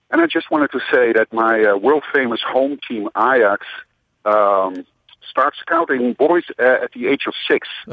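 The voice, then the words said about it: Dutch accent. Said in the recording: “I'm a Dutch expatriate, hence the accent”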